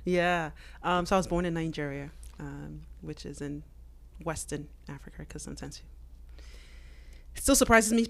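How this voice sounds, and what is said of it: Non-American accent. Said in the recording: “Clearly, you weren't born in the U.S. ... Based on the accent”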